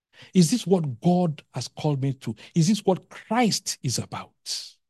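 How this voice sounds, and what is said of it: Passionate, emphatic preaching delivery. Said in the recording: “saying this with passion”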